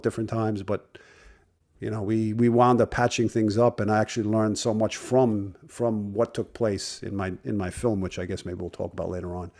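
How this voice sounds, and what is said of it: Brooklyn accent. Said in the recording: “you've got that wonderful Brooklyn accent.”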